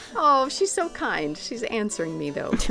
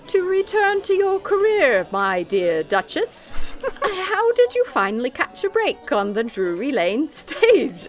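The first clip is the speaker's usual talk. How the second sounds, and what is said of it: Wandering, unconvincing put-on British accent. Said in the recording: “I should sound British ... I don't even know what accent that was, but it was not ... It was a survey of accents.”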